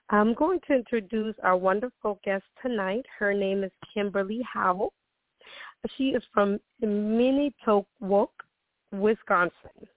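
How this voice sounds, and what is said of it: Voice altered from a cold. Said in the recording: “my voice sounds a little bit, a little different. I'm getting over a cold ... I did lose my voice”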